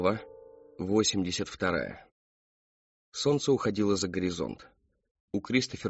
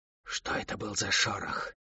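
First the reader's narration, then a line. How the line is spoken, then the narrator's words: Close hiss. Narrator (Russian): прошипели совсем рядом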